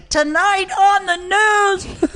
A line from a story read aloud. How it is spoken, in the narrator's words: this guy Garrett Morris yells in from his side